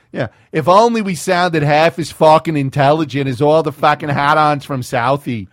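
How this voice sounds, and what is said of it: Bad put-on Boston accent. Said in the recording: “that's the worst Boston accent imaginable right there. That was fucking horrifying. ... That was fucking terrible.”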